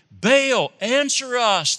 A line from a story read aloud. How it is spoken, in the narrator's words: they shouted